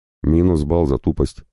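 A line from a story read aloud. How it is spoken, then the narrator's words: Angry curt remark. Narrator (Russian): зло бросил Мартеллос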